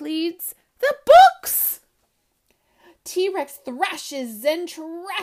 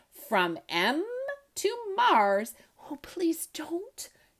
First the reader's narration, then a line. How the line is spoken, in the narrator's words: Tess whispers